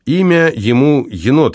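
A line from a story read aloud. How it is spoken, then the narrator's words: Sudden cheerful remark. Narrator (Russian): вдруг весело подмигнул Никите Савва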